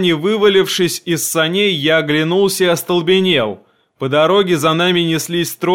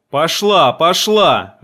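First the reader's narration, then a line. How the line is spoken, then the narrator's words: Loud yelling. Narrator (Russian): заорал Яков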